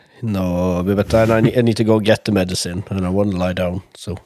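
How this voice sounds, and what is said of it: Unusually low, deep voice. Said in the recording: “your voice is so ... sexy ... So low sexy ... So low”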